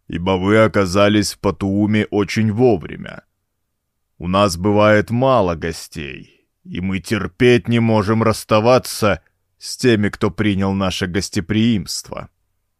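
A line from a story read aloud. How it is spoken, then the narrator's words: Deep rumbling voice. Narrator (Russian): прогрохотал своим подземным голосом Уджук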